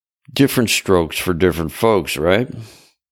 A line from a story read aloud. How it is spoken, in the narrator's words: Jay laughed